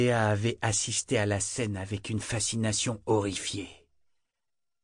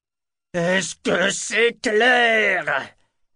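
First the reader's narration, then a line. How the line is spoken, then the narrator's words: Yelling to be understood. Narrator (French): hurla Kyle comme si crier devait rendre ses propos plus compréhensibles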